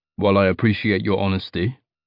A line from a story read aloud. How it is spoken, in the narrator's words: he said, still rather coldly